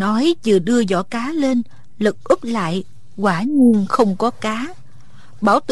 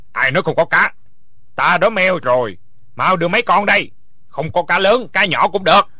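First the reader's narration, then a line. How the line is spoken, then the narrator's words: Angry. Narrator (Vietnamese): Bảo Tượng tức giận nói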